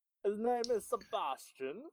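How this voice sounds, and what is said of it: Put-on butler accent. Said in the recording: “in a Batman butler's accent? ... it will probably sound horribly racist”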